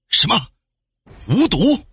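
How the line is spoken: Angry voice. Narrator (Chinese): 传来一个怒音

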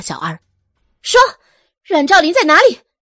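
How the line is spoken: Angry question. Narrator (Chinese): 愤怒的问道

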